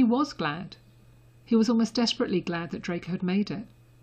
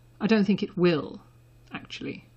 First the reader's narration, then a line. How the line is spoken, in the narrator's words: Draco said dryly